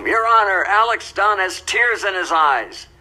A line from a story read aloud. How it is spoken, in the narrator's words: yelled out in the courtroom